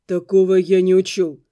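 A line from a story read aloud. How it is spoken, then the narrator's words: Dull, muffled. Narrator (Russian): глухо сказал он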